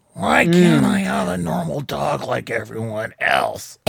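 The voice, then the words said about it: Hoarse, old-man-sounding voice. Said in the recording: “Charlie Brown has such a hoarse voice. He sounds like he's 80.”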